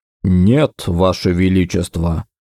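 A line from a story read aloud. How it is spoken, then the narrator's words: Overly calm reply. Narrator (Russian): как-то чересчур спокойно отозвался он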